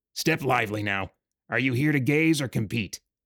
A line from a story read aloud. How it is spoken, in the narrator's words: The dwarf who sat behind the wide registration desk was a no-nonsense dwarf who said gruffly